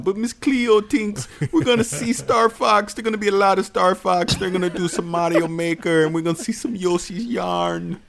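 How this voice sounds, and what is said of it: Very bad put-on Jamaican accent. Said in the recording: “This is the worst Jamaican accent of all time. ... It's so bad.”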